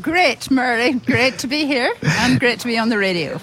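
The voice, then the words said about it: Northern Irish accent. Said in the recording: “I was trying to pick that accent of that, or maybe she's Welsh, but you're actually from Northern Ireland.”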